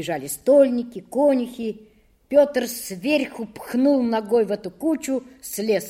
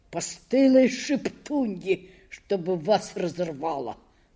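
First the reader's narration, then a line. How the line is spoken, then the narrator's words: Muttering. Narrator (Russian): бормотал он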